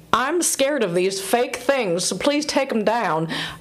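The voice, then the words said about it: Put-on accent while quoting someone. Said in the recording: “I don't know why she has that accent”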